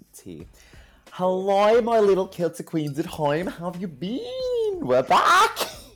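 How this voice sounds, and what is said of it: Put-on Australian accent. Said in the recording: “We haven't done that accent in weeks ... that accent really is a no-go ... you can't do the Australian accent”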